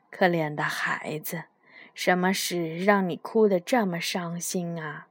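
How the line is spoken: Soft question. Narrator (Chinese): 轻声地问道

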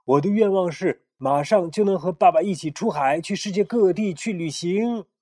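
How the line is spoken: Loud. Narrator (Chinese): 克莱辛大声地说

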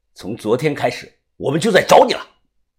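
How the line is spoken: Cold voice. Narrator (Chinese): 他冷声的说

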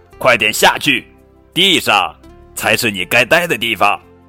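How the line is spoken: Loud protest. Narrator (Chinese): 鸟妈妈大声抗议道

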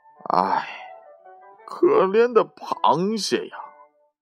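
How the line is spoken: Lamenting sigh. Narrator (Chinese): 他哀叹道

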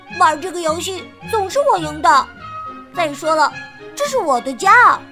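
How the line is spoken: Duckling crying out. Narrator (Chinese): 小鸭叫了起来

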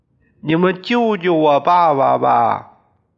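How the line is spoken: Desperate shouting plea. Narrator (Chinese): 宋刚对着他们喊叫

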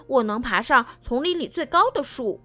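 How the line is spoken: Little bear, loud. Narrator (Chinese): 小熊大声说

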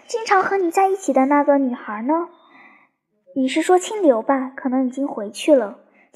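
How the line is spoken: Gentle woman's voice. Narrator (Chinese): 那女人柔声地说

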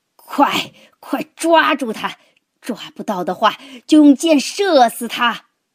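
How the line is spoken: Loud struggling roar. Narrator (Chinese): 挣扎着叫起来，大声咆哮道

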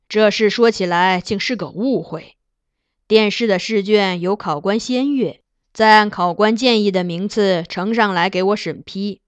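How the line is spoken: Laughing sigh. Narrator (Chinese): 金上笑叹

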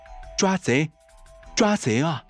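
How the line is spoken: Desperate shouting. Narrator (Chinese): 小沙拼命的喊着

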